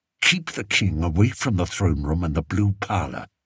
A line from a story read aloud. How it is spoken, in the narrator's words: Spittleworth whispered in Flapoon's ear